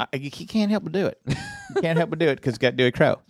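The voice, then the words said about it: Put-on Southern accent. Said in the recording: “you are intentionally putting on a Southern accent for, I think, everything you're saying”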